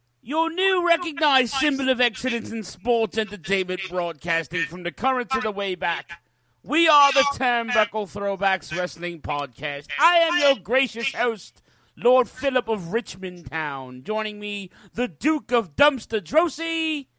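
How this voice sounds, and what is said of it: Fake British accent, pretty good. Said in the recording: “fake British accent ... my British accent ... Actually, it was pretty good.”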